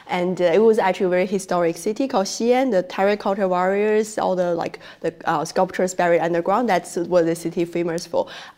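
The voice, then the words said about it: Strong Chinese accent. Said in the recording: “my strong accent, like the Chinese accent”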